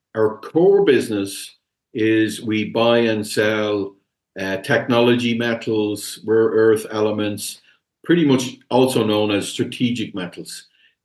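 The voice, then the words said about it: Irish accent. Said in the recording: “I'm in Ireland, as you can probably tell from the accent”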